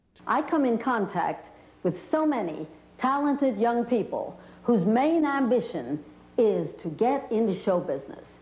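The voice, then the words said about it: Strange voice, unidentifiable accent. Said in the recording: “There was this strange voice that had a kind of an unidentifiable accent.”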